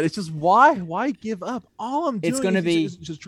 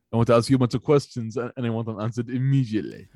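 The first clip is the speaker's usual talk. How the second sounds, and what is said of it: Imitates another person's voice. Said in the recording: “trying to perfect... my Austin Arnold Schwarzenegger impression”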